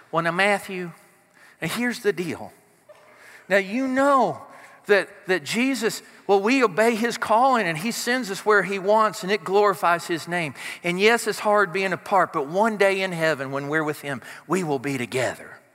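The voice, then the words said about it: Imitated sweet Southern accent. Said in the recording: “My mom, in her sweet southern, although not always sweet, accent.”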